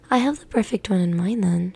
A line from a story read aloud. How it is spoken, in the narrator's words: she said brightly